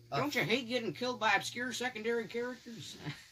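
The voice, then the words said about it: Cartoon character voice. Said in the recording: “great Ned Bear impression”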